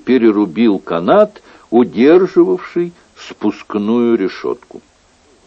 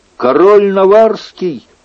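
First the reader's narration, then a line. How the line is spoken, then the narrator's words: Soldier shouting. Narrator (Russian): один из солдат крикнул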